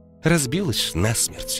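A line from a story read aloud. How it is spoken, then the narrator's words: Gloomy reply. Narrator (Russian): мрачно ответила Наташа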